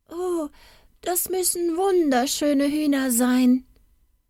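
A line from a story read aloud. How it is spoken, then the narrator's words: Small boy calling out. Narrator (German): rief ein kleiner Knabe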